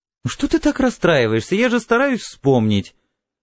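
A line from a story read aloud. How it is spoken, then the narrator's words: Strange shrieking laugh. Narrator (Russian): Она вдруг засмеялась странным взвизгивающим смехом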